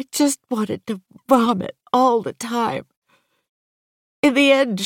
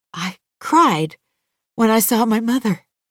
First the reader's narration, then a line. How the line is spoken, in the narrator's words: she says